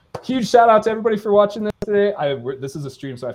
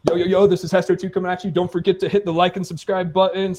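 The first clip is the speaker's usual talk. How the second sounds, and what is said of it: Hyped-up online streamer voice. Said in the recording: “I have to do the streamer voice”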